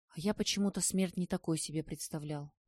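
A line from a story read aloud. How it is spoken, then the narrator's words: Whisper. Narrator (Russian): прошептал Стасик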